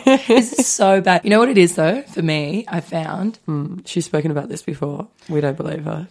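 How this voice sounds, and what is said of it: Hoarse, nearly lost voice. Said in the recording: “I'm the one without the voice today... I'm giving myself laryngitis... lose my voice again”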